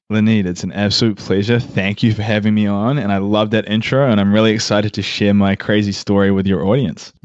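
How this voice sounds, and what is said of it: New Zealand-American hybrid accent. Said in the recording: “Is that an Australian accent I hear? ... It's New Zealand kind of meshed with American ... it's a weird hybrid”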